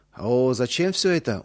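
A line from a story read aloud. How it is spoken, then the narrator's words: Surprised drawl. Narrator (Russian): удивленно протянул Иосиф Дмитриевич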